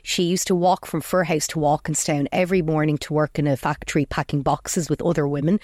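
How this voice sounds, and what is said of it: Slight Firhouse Dublin Irish accent. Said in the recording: “Then I've got the accent. ... Tint of a Fir House accent, as some people would say. ... Oh, definitely a tint.”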